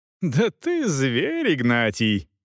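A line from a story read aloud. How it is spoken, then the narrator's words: Laughing. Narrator (Russian): засмеялась Агнес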